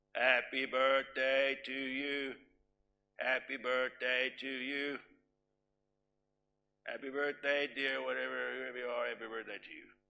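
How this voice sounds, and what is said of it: Singing in a flat monotone. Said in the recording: “That's monotone blah.”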